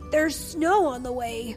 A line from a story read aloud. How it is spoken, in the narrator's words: panted Fletcher